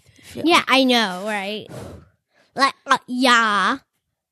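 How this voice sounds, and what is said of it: Valley Girl voice. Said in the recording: “I had to use my Valley Girl voice”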